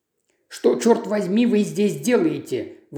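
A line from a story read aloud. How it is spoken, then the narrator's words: Exclaimed. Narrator (Russian): воскликнул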